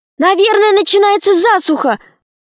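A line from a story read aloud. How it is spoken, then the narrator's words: Shout. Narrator (Russian): крикнула Снегурочка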